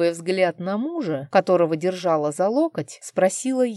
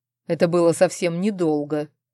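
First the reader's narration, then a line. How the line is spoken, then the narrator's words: Amused snort. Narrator (Russian): хмыкнул Арман, явно позабавленный моей реакцией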